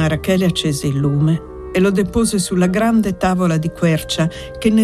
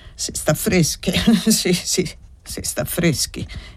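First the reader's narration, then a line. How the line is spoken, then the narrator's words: Breathless spiteful muttering. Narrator (Italian): egli riprese a borbottare con voce ansante e dispettosa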